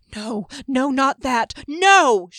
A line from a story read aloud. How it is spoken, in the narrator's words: cried